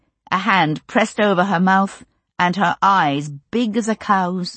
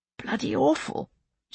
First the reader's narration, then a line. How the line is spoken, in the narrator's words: she replied hoarsely